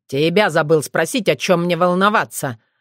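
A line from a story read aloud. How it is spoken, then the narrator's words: Snapping retort. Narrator (Russian): огрызнулся Уртян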